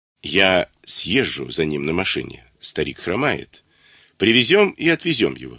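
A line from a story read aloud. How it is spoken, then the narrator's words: Plain. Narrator (Russian): сказал Левин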